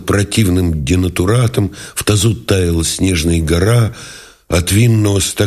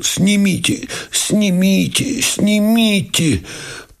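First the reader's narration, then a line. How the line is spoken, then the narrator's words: Wheezing groan. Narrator (Russian): Сипя ... простонал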